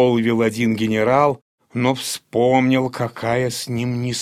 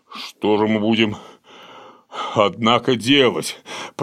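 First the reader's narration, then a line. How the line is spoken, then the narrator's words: Tearful. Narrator (Russian): продолжал он сквозь слезы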